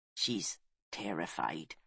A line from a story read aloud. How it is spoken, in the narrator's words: he said, keeping his voice low and gentle